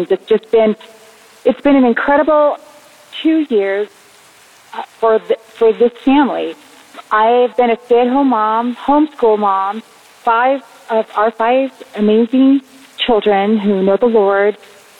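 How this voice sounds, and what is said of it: Shaking, emotional voice. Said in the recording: “My voice is even shaking. I'm just shaken up”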